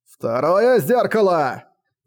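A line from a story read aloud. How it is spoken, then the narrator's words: Shout. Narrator (Russian): закричал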